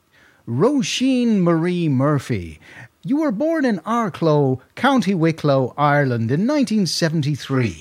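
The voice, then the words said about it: Eamon Andrews impression, American twang. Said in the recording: “do an Eamon Andrews impression ... there was quite an American twang to him”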